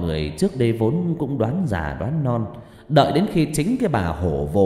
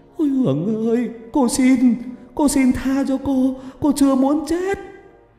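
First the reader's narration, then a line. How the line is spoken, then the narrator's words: Shrieking. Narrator (Vietnamese): bà rú lên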